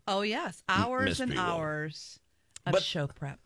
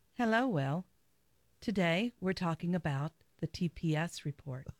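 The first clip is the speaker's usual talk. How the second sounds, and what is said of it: Corporate NPR-style announcer voice. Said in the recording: “do an NPR impression? ... you could do a great NPR voice. Just do your corporate speech voice,”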